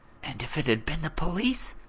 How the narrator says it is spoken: his mother demanded, still whispering

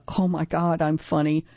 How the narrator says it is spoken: whispering to Cynthia

